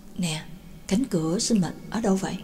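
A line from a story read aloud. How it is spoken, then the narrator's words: Soft question. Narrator (Vietnamese): Nhạc Dương khẽ hỏi Na Thâm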